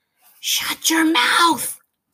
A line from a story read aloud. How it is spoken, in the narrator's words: muttered the whiffle bird